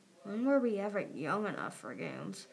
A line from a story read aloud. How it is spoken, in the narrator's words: Glory muttered